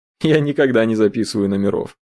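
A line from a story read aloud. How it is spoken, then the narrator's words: Laughing. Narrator (Russian): рассмеялся Эдгар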